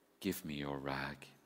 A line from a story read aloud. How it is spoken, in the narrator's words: he said so gently